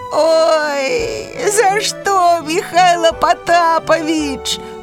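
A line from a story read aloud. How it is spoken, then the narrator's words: Groaning. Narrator (Belarusian): застагнаў зайка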